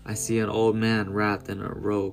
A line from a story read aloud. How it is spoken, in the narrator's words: she replied